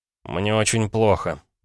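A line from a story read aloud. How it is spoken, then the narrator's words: Sighing. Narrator (Russian): вздохнул Пол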